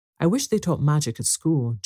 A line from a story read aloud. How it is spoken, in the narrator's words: Jane sighed